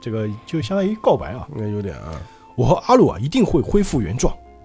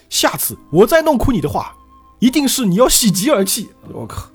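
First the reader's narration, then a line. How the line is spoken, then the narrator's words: Sudden shout. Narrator (Chinese): 艾德的 突然就大声喊道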